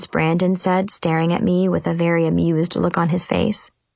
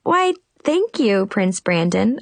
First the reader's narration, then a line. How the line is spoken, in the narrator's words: I giggled